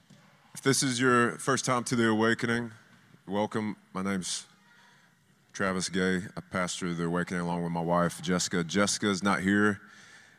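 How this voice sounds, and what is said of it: Deeper, congested, stuffed-up voice. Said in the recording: “My voice is a little deeper today because sinus congestion ... It's just still a little stuffed up.”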